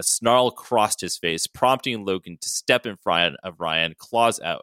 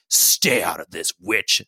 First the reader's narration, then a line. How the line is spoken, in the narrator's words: Sabretooth snarled